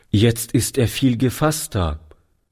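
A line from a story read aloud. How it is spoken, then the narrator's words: Plain. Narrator (German): sagte Toni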